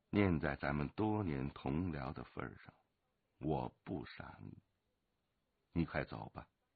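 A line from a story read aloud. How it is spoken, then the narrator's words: Calm, flat. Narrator (Chinese): 龙八淡淡的说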